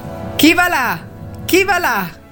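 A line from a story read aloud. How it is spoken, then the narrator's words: Sentry's repeated shout. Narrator (Italian): gridò per la terza volta la sentinella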